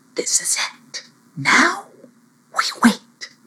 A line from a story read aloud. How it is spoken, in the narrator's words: whispered Lindama